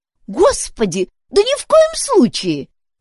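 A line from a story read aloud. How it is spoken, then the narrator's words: Exclaimed. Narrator (Russian): воскликнула Дейзи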